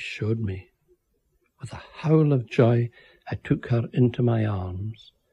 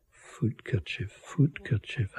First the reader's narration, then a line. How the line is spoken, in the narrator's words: I mumbled into her ear